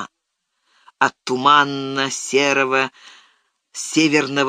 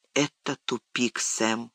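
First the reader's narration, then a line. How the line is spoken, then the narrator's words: Whispered. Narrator (Russian): прошептал Фродо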